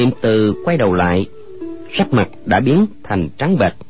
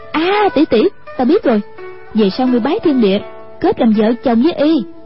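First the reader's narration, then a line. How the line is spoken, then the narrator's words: Exclaiming. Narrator (Vietnamese): Hoàng Dung kêu lên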